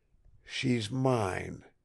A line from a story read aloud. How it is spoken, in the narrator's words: he whispered